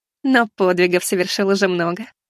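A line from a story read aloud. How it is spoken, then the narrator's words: Giggling. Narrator (Russian): хихикнула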